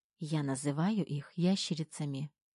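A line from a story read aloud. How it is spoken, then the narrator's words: Whisper in ear. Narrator (Russian): прошептала она мне в ухо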